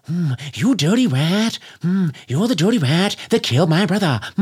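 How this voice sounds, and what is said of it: Jimmy Cagney impression. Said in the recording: “that's Jimmy Cagney ... hack impressions”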